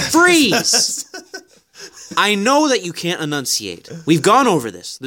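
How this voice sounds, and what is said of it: Wandering mixed North American accent. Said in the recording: “You went from Boston. Looped through Quebec, jumped into Ontario, Northern Ontario, and then somehow came back down to Michigan, all the way down to Kentucky at the end of that. What the hell happened to your accent?”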